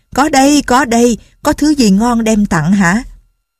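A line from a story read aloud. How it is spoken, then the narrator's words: Joyful loud reply. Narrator (Vietnamese): Đào Cốc Lục Tiên vui mừng lớn tiếng đáp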